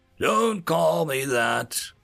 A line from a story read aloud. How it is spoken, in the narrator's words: the black armor figure wheezed